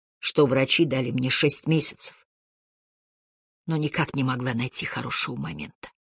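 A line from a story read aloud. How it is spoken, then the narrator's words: Muffled whisper through fingers. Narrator (Russian): прошептала она сквозь прижатый ко рту пальцы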